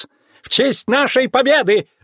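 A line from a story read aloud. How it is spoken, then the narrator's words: Squealer's exclamation. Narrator (Russian): воскликнул визгун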